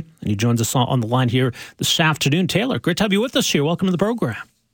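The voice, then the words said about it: Polished radio announcer voice. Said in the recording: “You have such a good radio voice.”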